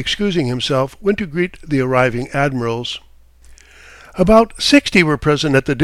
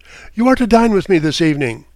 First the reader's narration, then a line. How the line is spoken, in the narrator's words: He laughed and calling out